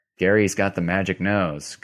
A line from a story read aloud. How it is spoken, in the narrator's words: Kabir said